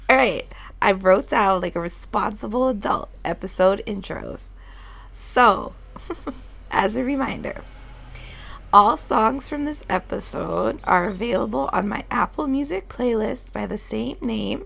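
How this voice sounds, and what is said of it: Rough, congested-sounding voice. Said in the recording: “just getting over a cold, which is why my voice sounds trash”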